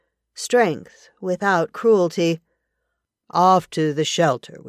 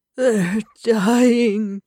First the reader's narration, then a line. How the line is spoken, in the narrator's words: he moaned